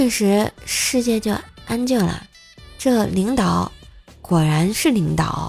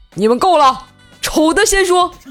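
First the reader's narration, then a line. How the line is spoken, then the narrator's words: Roaring shout. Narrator (Chinese): 领导大吼一声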